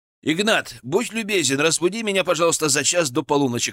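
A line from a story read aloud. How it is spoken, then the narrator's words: Called out downstairs. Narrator (Russian): крикнул я слуге, который остался внизу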